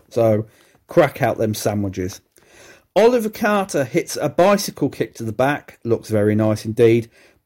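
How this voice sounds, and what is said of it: Croaky voice. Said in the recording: “my voice is going croaky already”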